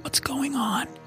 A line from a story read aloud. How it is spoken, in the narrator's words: he whispered